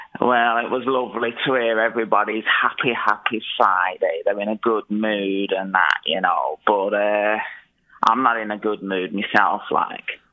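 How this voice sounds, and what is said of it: Very thick regional accent. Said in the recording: “You're a very thick accent. It was hard to hear.”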